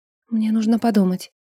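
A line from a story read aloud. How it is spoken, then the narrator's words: Muttering. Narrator (Russian): пробормотала Ринка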